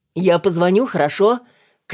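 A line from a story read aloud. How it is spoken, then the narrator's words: Shouted from another room. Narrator (Russian): крикнул Макс из прихожей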